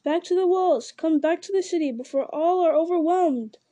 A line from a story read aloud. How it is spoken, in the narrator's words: cried